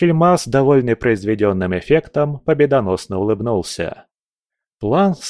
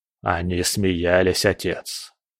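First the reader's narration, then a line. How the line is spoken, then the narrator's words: Quiet. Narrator (Russian): тихо сказал он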